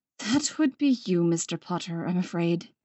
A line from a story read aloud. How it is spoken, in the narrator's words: McGonagall said, sighing heavily